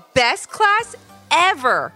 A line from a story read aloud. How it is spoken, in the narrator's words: called out Ivy